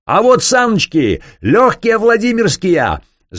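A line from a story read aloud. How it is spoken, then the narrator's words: Yelled in unnatural falsetto. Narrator (Russian): заорал статский советник фальцетом, не имевшим ничего общего с обыкновенным его голосом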